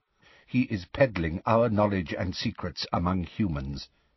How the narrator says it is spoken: said Magorian quietly

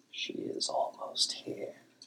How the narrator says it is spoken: Vostri whispered

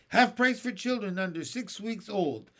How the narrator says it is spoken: Ant Sponge shouted

